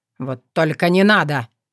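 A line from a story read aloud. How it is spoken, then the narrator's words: Barking shout. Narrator (Russian): рявкнул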